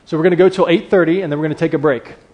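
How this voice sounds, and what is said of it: Speaks with a noticeable accent. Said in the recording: “It's the accent.”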